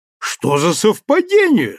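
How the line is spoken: Exclamation. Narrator (Russian): снова воскликнул

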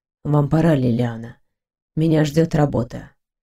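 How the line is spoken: Sighing. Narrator (Russian): Грегор вздохнул и проговорил

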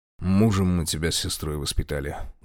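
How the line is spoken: Hollow, muffled. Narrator (Russian): глухо проговорил он

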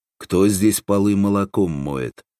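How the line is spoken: Menacing question. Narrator (Russian): грозно спросил Семен

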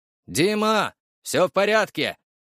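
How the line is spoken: Shouting. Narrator (Russian): крикнул своему заму

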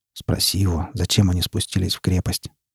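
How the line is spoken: Quiet. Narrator (Russian): тихо произнес он

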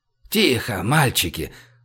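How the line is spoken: Breathed out. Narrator (Russian): выдохнул Сансеич

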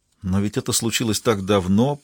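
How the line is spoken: Muttered. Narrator (Russian): пробормотала Синтия

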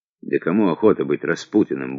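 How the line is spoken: Grumbling. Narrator (Russian): буркнул Сухотин

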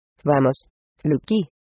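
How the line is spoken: Reproachful tone. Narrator (Spanish): respondió con tono de reproche

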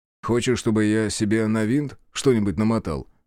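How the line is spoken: Smirking grunt. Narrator (Russian): хмыкнул я

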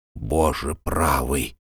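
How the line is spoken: Muttering. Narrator (Russian): пробормотал Арнольд

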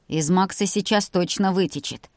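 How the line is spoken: Cheerful snort. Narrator (Russian): жизнерадостно фыркнул Илья

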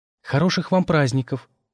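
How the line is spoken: Frightened wish. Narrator (Russian): пожелала испуганно

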